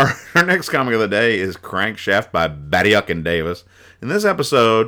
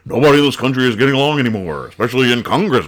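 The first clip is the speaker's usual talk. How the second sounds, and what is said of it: Imitates another person's voice. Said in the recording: “I'm going to do a Nixon imitation. ... this is a really good Nixon ... that guy does the best Nixon”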